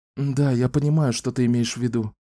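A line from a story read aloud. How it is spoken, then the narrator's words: Sighing. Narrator (Russian): вздохнула Франка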